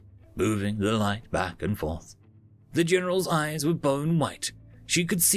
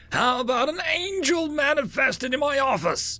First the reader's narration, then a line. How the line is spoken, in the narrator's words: Tic Tac yelled